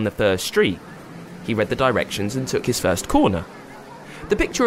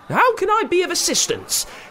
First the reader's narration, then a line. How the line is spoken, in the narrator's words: said a chirpy voice that seemed familiar